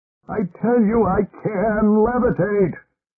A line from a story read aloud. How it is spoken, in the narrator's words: shouted Roger